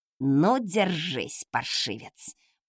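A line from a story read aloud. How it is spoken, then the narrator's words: Cook through gritted teeth. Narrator (Russian): процедила кухарка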